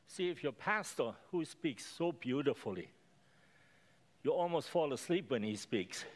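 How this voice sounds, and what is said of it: Speaks with a noticeable accent. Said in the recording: “I have accent. I speak a little bit funny”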